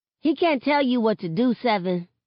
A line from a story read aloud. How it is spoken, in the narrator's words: Sakani chirps